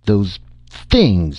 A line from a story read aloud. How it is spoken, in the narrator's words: he cried